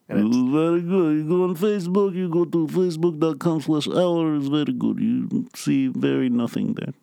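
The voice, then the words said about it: Put-on Russian accent. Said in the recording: “I was almost going to do a Russian accent.”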